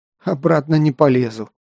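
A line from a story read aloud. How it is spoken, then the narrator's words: Tired exhale. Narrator (Russian): устало выдохнул Кир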